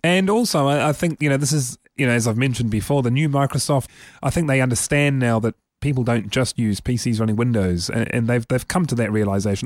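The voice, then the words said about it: Strained, failing voice from illness. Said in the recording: “my voice is gonna is gonna die soon. I'm still, like I say, under the weather.”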